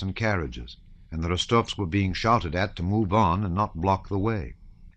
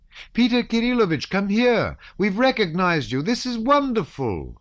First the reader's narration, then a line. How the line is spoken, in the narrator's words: she cried